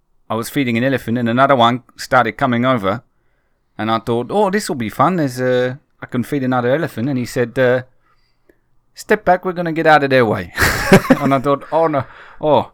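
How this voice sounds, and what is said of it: Put-on accent, poorly maintained. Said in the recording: “I'm struggling to maintain this ... terrible, ... Terrible, probably quite racist accent.”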